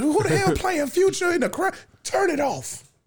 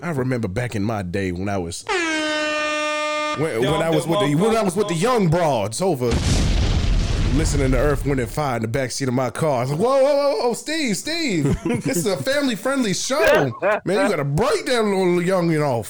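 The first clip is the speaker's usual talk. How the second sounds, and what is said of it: Imitates another person's voice. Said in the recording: “your Steve Harvey impersonation ... say Earth, Wind, and Fire in your Steve Harvey ... Steve Harvey voice”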